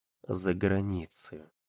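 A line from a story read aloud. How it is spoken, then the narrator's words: Quiet. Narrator (Russian): тихо сказал Жан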